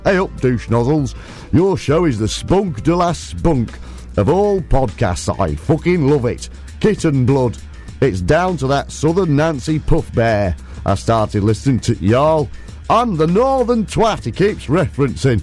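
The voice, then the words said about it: Put-on northern English accent. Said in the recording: “shall I do this in the proper northern accent? Oh, I'll try, yeah. I'll try.”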